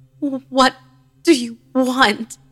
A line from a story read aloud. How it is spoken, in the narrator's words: She moaned and croaked again, repeating the same noise